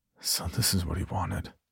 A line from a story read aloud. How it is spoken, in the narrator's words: I whispered